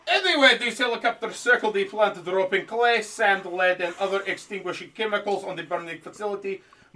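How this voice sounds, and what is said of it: Put-on accent. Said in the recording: “Shout out to you for this accent. It's making this go a little slower, but I'm really surprised you can pull this off”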